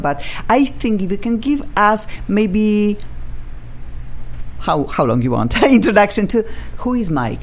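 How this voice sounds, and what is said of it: Funky non-native accent. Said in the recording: “my funky accent”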